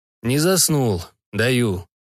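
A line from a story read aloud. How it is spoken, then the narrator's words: Grumble. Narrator (Russian): буркнул Никонов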